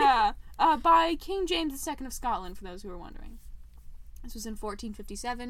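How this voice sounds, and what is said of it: Usual voice. Nothing is said of it.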